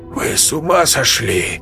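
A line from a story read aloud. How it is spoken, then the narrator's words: Breathless exhale. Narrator (Russian): выдохнул Берг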